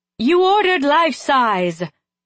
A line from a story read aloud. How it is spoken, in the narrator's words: she shouted at them